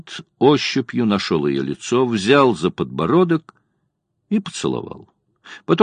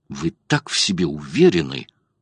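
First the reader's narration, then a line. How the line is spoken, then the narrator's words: Angry whisper. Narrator (Russian): прошептала она зло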